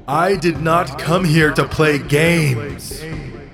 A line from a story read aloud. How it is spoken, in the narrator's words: She yells